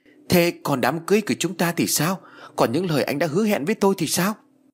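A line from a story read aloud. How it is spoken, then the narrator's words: Shouting, losing control. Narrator (Vietnamese): Uyển không dằn nổi, cô liền hét lên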